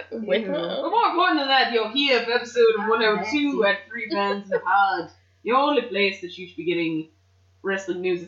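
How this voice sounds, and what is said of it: Old-time radio announcer put-on accent. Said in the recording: “It's not even a pirate accent. ... I'm just putting on an accent. ... You sound like somebody that does a radio show in like the 10s and 20s. ... It's just not the correct accent. It's a good one”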